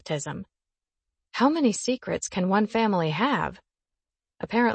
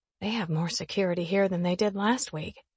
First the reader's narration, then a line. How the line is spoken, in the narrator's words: I whisper to Boone